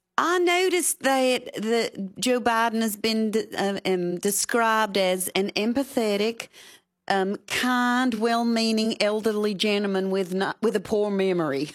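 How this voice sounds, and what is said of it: Louisiana accent. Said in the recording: “your Louisiana accent”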